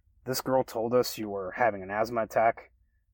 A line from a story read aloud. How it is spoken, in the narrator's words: exclaimed over the loud performance